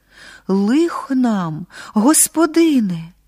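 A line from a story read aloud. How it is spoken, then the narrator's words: Servant's sudden exclamation. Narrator (Ukrainian): одна із служанок раптом вигукнула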